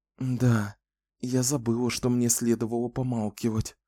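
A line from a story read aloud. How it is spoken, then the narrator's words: Muttering. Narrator (Russian): пробормотала Кэлен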